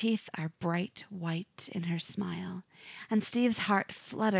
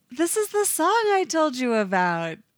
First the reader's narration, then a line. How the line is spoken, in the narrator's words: She smiles at him, saying loudly